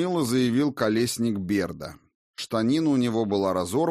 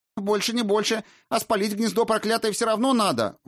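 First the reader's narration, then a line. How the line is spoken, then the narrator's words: Shrill shriek. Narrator (Russian): вновь взвизгнула Хильда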